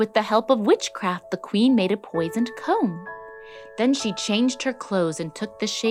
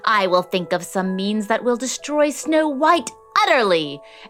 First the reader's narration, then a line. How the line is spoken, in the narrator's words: she screeched